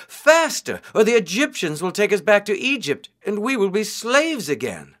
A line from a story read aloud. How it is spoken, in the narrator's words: cried